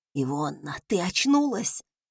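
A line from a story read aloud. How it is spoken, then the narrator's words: Dying wheeze. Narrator (Russian): прохрипел Сойер, кажется, предсмертным сипом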